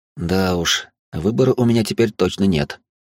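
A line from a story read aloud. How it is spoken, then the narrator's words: Heavy sigh. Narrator (Russian): тяжело вздохнул я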